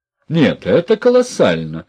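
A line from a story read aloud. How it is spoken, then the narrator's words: Excited exclamation. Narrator (Russian): воскликнул профессор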